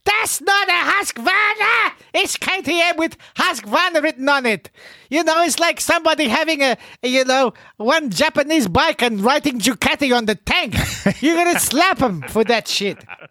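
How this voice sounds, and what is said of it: Yelling, loud agitated voice. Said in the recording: “Sorry, I'm yelling, everybody.”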